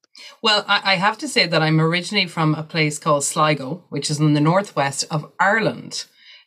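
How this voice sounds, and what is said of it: Irish accent. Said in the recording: “has the most amazing Irish accent ever”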